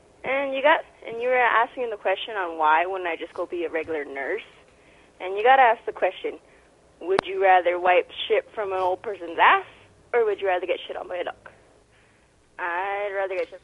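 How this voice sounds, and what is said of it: Latina accent. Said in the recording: “the Latina accent”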